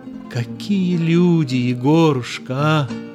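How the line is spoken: Exclaimed. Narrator (Russian): воскликнула Люсьен

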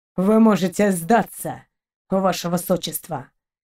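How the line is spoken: Muffled, curt. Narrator (Russian): Глухо кинул ей Далок

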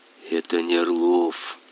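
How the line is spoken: Whisper. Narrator (Russian): прошептал

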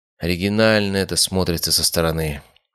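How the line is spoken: Sad smiling tone. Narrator (Russian): грустно улыбнулся я

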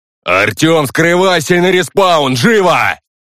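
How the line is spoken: Shouting. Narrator (Russian): Ян Крок кричал

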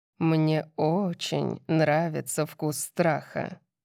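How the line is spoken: Gloomy. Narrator (Russian): мрачно сказал Макс

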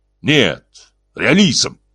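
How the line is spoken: Sharp reply. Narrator (Russian): резко ответил Кейн

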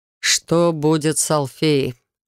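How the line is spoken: Muffled question. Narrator (Russian): глухо спросил он

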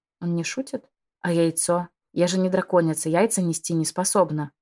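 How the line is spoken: Stunned exhale. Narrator (Russian): выдохнула ошарашенно

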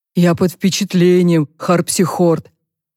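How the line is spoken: Whistling through teeth. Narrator (Russian): Альда свистнул сквозь зубы

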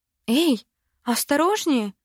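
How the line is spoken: Exclaimed. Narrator (Russian): воскликнула я

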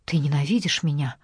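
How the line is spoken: Whisper. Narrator (Russian): прошептала

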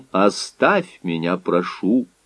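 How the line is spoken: Quiet. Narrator (Russian): сказал он тихо

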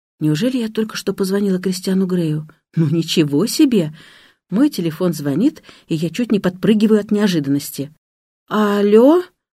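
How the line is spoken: Timid mumble into phone. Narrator (Russian): робко мычу я в телефон

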